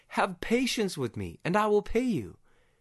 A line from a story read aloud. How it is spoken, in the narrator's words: the poor slave cried out to his master